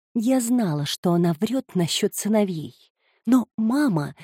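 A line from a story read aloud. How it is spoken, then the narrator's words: Soft beginning. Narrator (Russian): мягко начала Петрина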